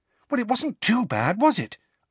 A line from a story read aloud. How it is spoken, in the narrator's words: asked Hermione anxiously